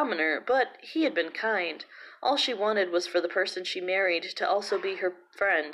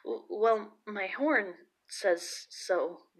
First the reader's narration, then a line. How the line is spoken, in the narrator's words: poor timid boy stammered